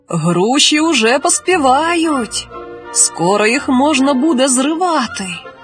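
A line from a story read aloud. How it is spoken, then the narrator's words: Plain. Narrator (Ukrainian): сказав старший брат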